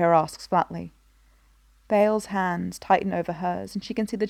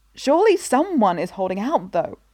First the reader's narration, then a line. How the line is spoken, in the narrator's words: she exclaims